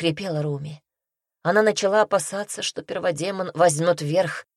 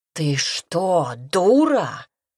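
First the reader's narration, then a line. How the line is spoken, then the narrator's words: Roaring. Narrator (Russian): взревел Аймери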